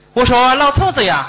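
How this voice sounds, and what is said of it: Put-on old Beijing accent, sounds Henan. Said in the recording (Chinese): “老北京的口音...老北京口音...京腔怎么河南味儿的这个”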